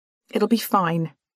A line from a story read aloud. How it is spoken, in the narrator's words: tell myself firmly